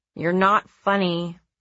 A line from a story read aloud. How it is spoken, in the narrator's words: I grumbled